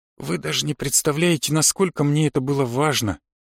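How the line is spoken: Girl speaking quietly. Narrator (Russian): тихо сказала девушка

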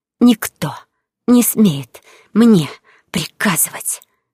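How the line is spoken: Hissing whisper. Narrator (Russian): Мой змеиный шепот в его ухо

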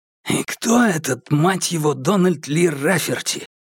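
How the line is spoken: Whispered question. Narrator (Russian): шепотом спросил Брубейкер

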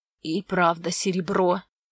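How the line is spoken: Hoarse rasp. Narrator (Russian): прохрипел он

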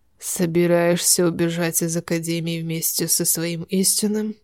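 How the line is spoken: Hoarse, flat, dangerous voice. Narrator (Russian): сказанные хриплым, неразличимым на эмоции голосом, прозвучали опасно

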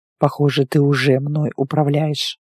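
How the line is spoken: Muffled mutter into hair. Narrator (Russian): пробормотал он мне в волосы

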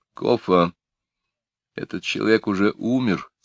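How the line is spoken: Quiet. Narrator (Russian): тихо сказал я

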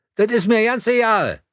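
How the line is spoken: Called out. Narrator (German): rief von Werner

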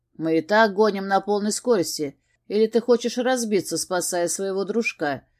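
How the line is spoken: Grumbling. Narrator (Russian): пробурчал Георг

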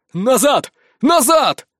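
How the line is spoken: Yelled. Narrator (Russian): заорал

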